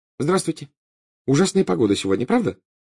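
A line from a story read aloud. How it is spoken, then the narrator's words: Cheerful. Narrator (Russian): весело сказала Гермиона хозяину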